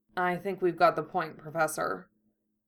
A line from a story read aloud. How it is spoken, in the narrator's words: George, swallowing, murmured weakly